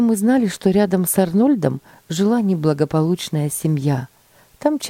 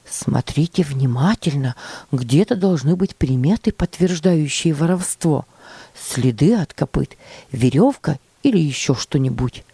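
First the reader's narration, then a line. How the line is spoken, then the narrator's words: Whisper. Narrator (Russian): шептал мальчикам Джон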